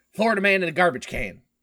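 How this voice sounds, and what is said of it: Put-on regional accent. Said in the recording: “You have to say it in the accent.”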